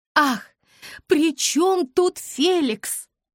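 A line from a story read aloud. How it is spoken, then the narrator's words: Exasperated exclamation. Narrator (Russian): в сердцах воскликнула мама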